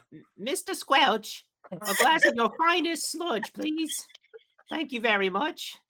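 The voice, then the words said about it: Deliberately terrible put-on accent. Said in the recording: “the worst accent”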